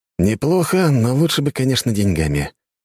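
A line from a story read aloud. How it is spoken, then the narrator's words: Sigh. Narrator (Russian): вздохнул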